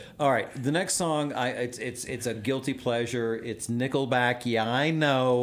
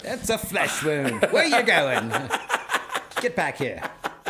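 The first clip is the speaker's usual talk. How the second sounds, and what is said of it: Bad put-on English accent. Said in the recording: “That's a bad English accent.”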